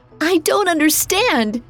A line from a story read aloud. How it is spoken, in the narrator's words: she cried